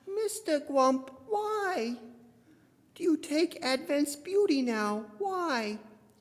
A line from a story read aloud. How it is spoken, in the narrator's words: his voice sickeningly sweet